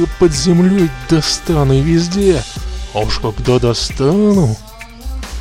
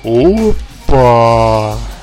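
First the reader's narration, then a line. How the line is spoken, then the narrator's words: Drawn-out drawl. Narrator (Russian): протянул Зеленка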